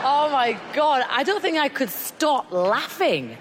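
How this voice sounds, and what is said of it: English Midlands accent. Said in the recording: “She's got that terrible, grimy accent. ... Where the fuck that is, Midland.”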